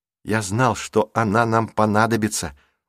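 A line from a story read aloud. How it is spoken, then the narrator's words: Whispering. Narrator (Russian): прошептал Рик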